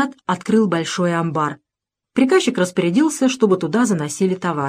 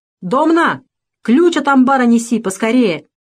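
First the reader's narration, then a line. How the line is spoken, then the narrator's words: Shout. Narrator (Russian): крикнул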